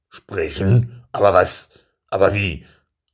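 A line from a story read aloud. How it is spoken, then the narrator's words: Stammering, trailing off. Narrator (German): stammelte und verstummte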